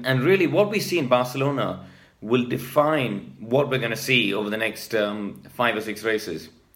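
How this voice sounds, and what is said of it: Hoarse, fading voice. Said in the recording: “As you can hear, I'm starting to lose my voice.”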